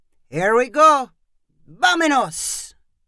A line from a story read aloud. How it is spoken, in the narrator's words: Pancho called out